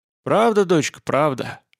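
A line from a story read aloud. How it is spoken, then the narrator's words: Sighing. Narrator (Russian): вздохнула Петлякова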